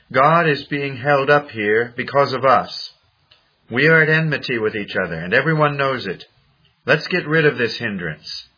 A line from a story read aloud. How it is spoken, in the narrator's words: Cao, cried out to a colleague